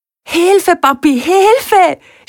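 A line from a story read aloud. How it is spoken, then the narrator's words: Screaming. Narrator (German): schreit er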